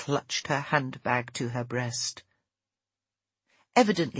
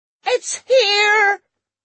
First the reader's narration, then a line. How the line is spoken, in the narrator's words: a woman who'd forgotten her glasses shrieked